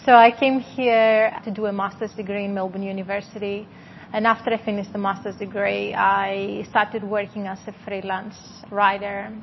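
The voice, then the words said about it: Strong Greek accent. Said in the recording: “I'm originally from Greece, so you can hear a strong accent.”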